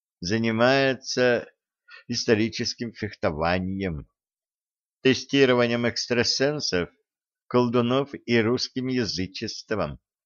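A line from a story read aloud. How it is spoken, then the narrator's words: Sighing man. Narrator (Russian): вздохнул мужчина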